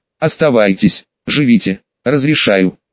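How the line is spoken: Whisper into ear. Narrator (Russian): прошептал в ухо

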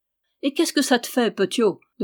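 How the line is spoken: Laughing question. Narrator (French): demanda Simon en riant

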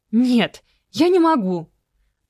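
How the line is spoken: Sudden cry. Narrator (Russian): Неожиданно вскрикнула Белла Капитонова

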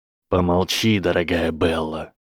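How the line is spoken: Icy command. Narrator (Russian): ледяным голосом велел Гарри

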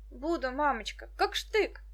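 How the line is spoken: Joyful assurance. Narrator (Russian): радостно заверил ее Петька

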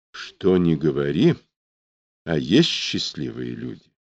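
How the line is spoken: Quiet, sad. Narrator (Russian): Тихо и как-то грустно сказал Муравьев

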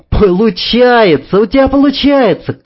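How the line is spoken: Shouted. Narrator (Russian): кричала Танюшка

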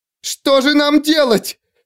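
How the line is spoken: Mother wailing. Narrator (Russian): завопила мама

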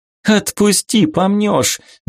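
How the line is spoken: Laughing. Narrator (Russian): засмеялась Вика

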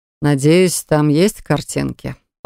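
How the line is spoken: Smirking drawl. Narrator (Russian): ухмыляясь, протянул правитель

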